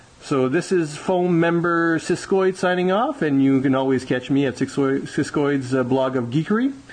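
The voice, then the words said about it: French Canadian accent. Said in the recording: “I love that French Canadian accent... you sound so cool”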